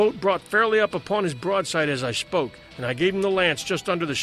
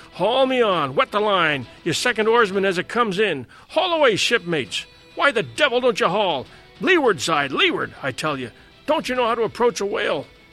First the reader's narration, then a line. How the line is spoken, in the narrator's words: cried I